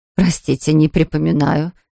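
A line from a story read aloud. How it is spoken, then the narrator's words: Astonished mutter. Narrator (Russian): изумленно пробормотала миссис Тротвиль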